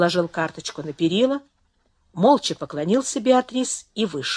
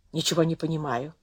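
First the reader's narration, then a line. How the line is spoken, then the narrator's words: Quiet. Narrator (Russian): тихо сказал Дон Бернардо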